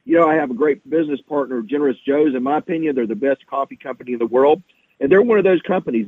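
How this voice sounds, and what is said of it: Hoarse, sick-sounding voice. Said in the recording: “I'm a little under the weather today. I'm sorry that my voice is messed up”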